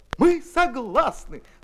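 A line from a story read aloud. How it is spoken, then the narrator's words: Women exclaiming in chorus. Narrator (Russian): хором воскликнули дамы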